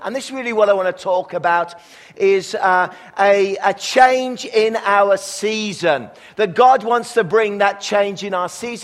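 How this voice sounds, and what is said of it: English accent. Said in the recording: “you can tell from my accent that I'm from Australia. And no, really, I'm from England”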